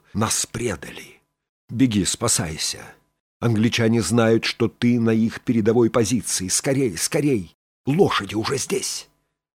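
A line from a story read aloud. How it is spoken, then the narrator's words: Quiet, urgent. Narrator (Russian): тихо сказал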